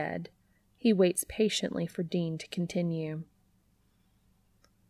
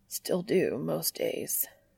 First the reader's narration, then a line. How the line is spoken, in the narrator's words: he mumbles under his breath